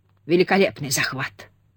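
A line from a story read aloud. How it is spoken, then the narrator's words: Muttered under breath. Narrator (Russian): пробормотал себе под нос Старкос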